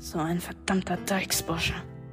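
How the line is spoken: Growling. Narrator (German): knurren

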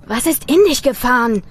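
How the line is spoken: Called out. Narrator (German): rief Tim

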